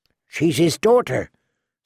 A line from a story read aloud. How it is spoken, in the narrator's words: Sam said feebly